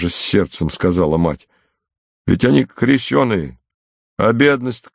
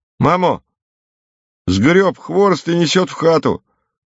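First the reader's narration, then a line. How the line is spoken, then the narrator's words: Crying out. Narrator (Russian): вскрикнул Параск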